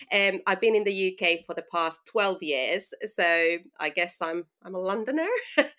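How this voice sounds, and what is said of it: Finnish accent. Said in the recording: “I'm originally from Finland. So, that's you know where I'm from and where the accent is from”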